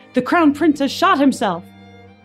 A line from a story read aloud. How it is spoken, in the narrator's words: Hoyas shouted